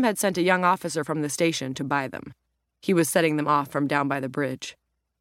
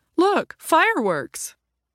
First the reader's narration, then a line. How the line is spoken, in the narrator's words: Leonard exclaimed